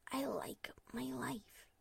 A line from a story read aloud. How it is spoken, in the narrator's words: she whispered